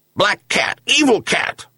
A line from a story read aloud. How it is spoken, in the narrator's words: yelped Bolli